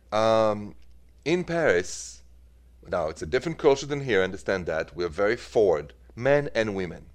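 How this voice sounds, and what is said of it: French accent. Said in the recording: “as you know from my accent, I'm from France, from Paris”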